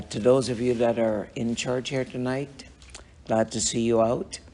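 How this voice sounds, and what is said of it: Slightly raspy voice. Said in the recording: “my voice is a little raspy ... Now it's just allergy time”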